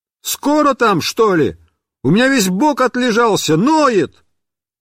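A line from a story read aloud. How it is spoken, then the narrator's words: Yelled from inside a barrel. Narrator (Russian): я заорал из бочки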